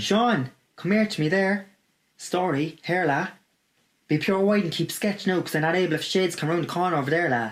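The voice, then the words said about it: Cork Irish accent. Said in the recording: “this accent ... we are in none other than Cork, Ireland”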